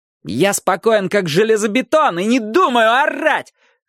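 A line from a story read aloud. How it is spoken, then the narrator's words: Yelled. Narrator (Russian): заорал Ник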